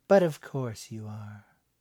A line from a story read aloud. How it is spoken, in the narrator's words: the woman said kindly